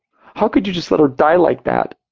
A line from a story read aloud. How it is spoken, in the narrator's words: She sobbed